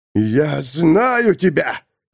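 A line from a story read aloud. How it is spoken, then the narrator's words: Growl. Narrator (Russian): зарычал Арпо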